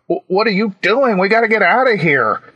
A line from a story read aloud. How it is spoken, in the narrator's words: yelled